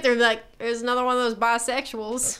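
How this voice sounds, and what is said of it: Put-on Southern US accent. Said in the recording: “you use the southern accent”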